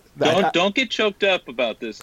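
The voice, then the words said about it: Impression of Coach Leach. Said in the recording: “my best Coach Leach impression”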